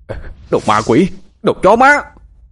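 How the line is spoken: Repeated furious shouting. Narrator (Vietnamese): miệng cứ không ngừng hét lên

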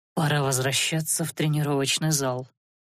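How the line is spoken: After deep sigh. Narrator (Russian): глубоко вздохнув, произнес он

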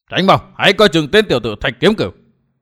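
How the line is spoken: Alarmed shout. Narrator (Vietnamese): Giác Hải đại sư kinh hãi quát

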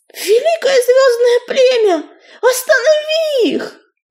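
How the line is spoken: Shouting. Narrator (Russian): закричала песчаная буря

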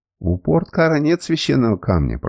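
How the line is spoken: Grumbling. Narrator (Russian): проворчал Самос

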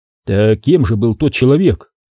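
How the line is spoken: Calm. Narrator (Russian): спокойно проговорил Теллу

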